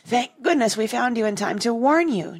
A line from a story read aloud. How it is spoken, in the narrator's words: Jane cried